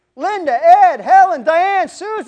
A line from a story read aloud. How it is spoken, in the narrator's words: he yells